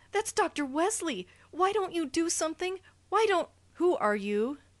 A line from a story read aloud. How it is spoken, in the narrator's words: cried frantically